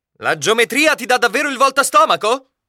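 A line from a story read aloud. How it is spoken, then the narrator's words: Blunt sudden outburst. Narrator (Italian): sono sbottato subito per amore della verità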